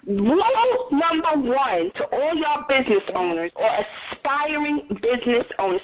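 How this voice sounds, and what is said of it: New York accent. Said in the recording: “I have a New York accent with a Southern slang”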